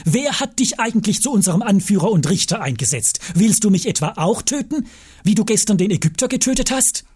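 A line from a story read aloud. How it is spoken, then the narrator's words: Called out. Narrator (German): der, der den Streit begonnen hatte, rief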